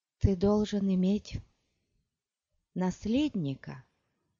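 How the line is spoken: Barely audible breath. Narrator (Russian): выдохнула она чуть слышно

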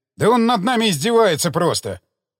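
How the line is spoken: Bearded man yelling. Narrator (Russian): Заорал бородач

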